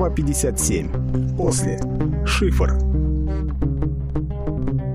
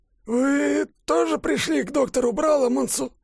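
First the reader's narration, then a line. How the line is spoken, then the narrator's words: Uncertain trembling voice. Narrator (Russian): Вопрос был задан неуверенным, дрожащим голосом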